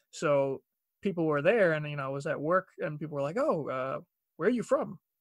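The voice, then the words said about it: Heavy Long Island accent. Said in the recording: “I'm from Long Island. So my accent ... now you hear it, you're probably like, oh my God, it's very heavy”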